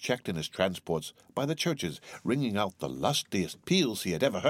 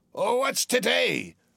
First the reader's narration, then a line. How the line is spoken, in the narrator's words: cried Scrooge, calling downward to a boy